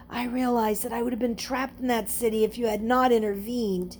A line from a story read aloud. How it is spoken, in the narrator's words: With emotion welling up in his throat so that he could barely speak, he managed to whisper